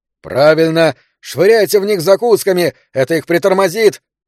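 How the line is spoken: Shouted. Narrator (Russian): закричал так

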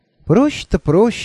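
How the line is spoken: Dreamy sigh. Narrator (Russian): мечтательно вздохнула Альвианта

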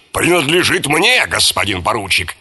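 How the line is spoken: Rough interruption. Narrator (Russian): грубо оборвал его полковник

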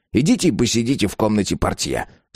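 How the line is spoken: Irritated. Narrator (Russian): сказал он раздраженно

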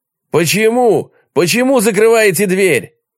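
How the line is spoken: Shouted. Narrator (Russian): крикнул он

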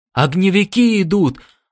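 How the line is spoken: Hoarse panicked cry. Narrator (Russian): раздался вдруг хриплый, полный паники голос Келса

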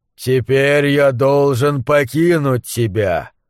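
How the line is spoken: Resonant voice. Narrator (Russian): сказал он звучным голосом

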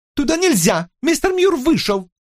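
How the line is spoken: Shrill squeal. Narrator (Russian): мисс Воутер взвизгнула

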